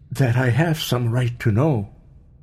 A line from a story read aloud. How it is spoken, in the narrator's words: he faltered oddly under her gaze